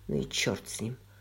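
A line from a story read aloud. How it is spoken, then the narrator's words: Mutter. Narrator (Russian): пробормотал Грей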